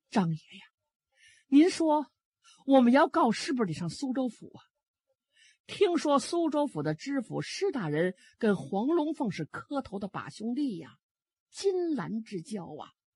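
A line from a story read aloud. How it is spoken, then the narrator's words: Sighing, tearful old woman. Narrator (Chinese): 老太太叹了一口气，眼泪就流下来了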